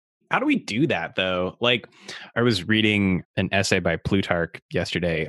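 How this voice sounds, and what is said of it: Imitates another person's voice. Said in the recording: “Is that what I sound like? Is that what I sound like on the show? ... This is my Ross impression.”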